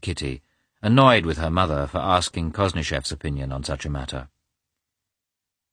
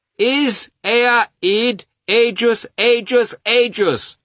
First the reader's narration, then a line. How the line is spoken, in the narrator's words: shouted Grisha